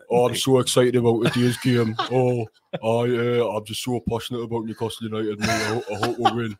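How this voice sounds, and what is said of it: Excitable, passionate imitation of another's voice. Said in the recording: “doing a Graham impression ... Graham's got quite an excitable, passionate voice anyways”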